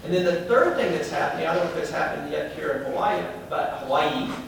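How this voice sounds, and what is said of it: Southern American accent. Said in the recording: “My southern accent gets me in trouble there sometimes.”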